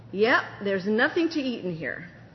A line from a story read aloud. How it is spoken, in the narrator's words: pronounced in an angry tone